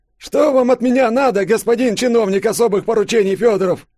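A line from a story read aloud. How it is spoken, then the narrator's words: Trembling voice, failed rudeness. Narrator (Russian): Йося хотел, чтобы это прозвучало грубо, надменно и недовольно, но голос дрогнул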